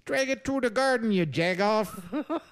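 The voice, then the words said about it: Put-on Chicago accent. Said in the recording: “That's my Chicago lame accent.”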